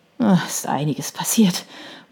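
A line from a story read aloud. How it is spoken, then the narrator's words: Murmured. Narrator (German): murmelte sie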